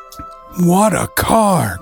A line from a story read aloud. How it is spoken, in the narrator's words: cried John in amazement